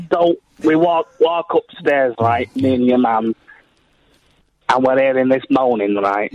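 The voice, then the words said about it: Strong regional accent. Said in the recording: “it's my accent”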